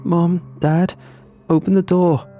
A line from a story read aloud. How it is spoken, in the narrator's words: sobbing